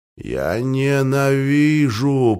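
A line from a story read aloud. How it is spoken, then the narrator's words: Groaning. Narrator (Russian): простонал Галилей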